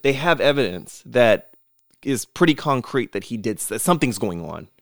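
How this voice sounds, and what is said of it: New York accent slipping out. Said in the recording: “Did my New York accent just come out?”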